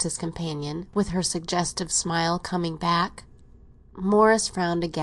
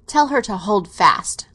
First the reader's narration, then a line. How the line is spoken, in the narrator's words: he said, rather curtly